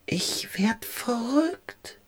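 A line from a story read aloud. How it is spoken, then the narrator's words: Whisper. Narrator (German): flüsterte Ralf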